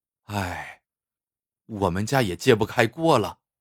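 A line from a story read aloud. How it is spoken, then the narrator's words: Sighing. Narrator (Chinese): 白善喜叹了一口气，说道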